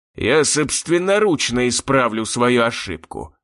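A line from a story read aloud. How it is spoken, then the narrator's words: Growled. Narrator (Russian): прорычал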